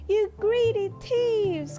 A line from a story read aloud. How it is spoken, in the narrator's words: cried Pig